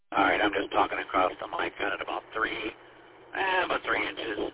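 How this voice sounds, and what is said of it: Calm, quiet voice. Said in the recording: “Nice, calm, quiet voice.”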